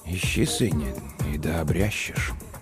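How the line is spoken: Very quiet, to himself. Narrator (Russian): Он ответил тихо-тихо, словно самому себе

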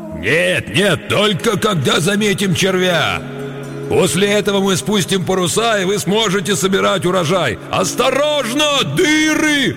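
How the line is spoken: Deafening yell. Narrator (Russian): Оглушительно завопил он

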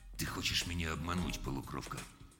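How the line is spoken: Sudden, very quiet. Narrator (Russian): внезапно сказал очень тихо

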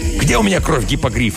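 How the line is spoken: Irritated question. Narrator (Russian): раздраженно спросил мистер Ди

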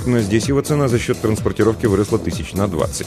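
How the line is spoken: Muttered. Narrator (Russian): пробормотал Толик

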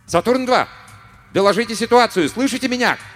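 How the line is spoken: Shouting into a radio. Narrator (Russian): кричал в радиопередатчик Руссо

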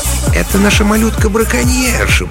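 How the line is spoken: Cooing. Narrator (Russian): проворковал Стэн Бэдж, лесничий Маскела

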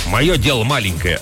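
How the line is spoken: Watchman's snap. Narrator (Russian): огрызнулся сторож

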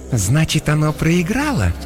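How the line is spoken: Insinuating question. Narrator (Russian): вкрадчиво спросила Иокаста

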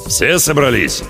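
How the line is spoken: Subdued growl. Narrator (Russian): прорычал он без обычного напора

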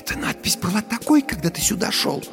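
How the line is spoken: Whispered question. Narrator (Russian): спросила Дженни шепотом

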